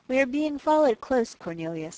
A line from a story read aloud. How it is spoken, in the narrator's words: he said calmly